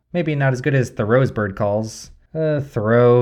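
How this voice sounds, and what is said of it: Usual voice. Nothing is said of it.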